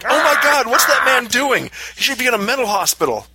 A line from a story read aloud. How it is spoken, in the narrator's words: Screamed